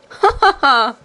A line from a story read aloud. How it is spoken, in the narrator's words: laughed the queen, louder than before